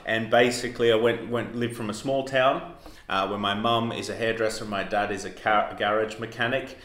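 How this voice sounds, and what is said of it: Australian accent. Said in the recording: “I'm from Australia, as you can tell from my accent”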